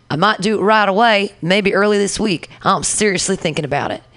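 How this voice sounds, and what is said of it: Put-on Southern accent. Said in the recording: “I don't mean to give him a Southern accent.”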